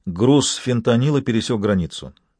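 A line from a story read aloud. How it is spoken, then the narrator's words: Composed, confident voice. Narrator (Russian): Наконец он взял себя в руки и продолжил уверенным голосом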